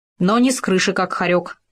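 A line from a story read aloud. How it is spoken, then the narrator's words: Grumbling ferret. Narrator (Russian): пробурчал хорек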